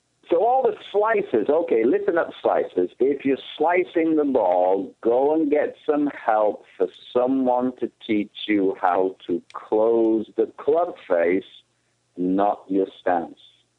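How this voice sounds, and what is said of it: British accent. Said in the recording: “I'm a Brit ... I thought that accent was right from Arizona ... It didn't sound like a local.”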